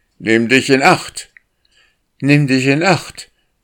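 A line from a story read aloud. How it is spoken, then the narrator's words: Called out. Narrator (German): rief er Windeile zu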